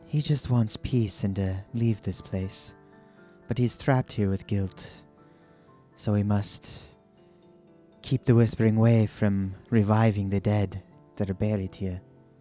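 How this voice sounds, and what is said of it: Slips into a character voice. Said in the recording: “You're slipping into Cyrus. ... did your accent change?”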